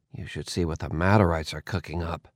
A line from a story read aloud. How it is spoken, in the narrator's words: muttered